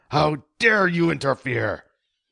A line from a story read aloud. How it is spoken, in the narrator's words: yelled